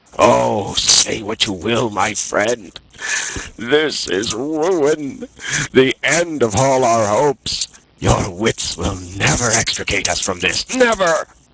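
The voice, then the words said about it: Frenzied, despairing delivery. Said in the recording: “A frenzy of despair vibrated in his accents.”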